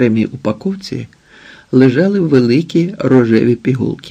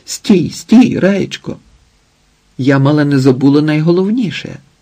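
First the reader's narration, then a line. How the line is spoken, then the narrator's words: Sudden startled cry. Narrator (Ukrainian): Іветта раптом зойкнула, вигукнула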